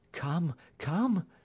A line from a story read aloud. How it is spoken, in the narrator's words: she cried breathlessly